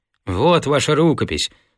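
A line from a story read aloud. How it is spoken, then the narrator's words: Calm. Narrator (Russian): сказал я спокойно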